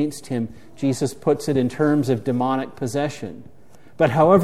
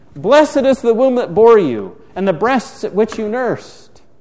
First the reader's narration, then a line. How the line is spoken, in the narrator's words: a woman in the crowd raised her voice and said to him